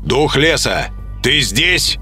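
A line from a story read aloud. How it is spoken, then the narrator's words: Loud question. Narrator (Russian): спросил громко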